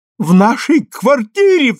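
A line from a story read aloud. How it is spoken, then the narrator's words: Shrill squeal. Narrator (Russian): взвизгнула она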